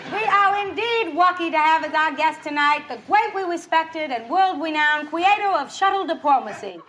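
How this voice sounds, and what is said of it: Barbara Walters impression, rounded R's. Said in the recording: “It featured her idiosyncratic speech with its rounded R. What did the real Barbara Walters think of the impersonation? ... the Gilda Radner Bawa Wawa”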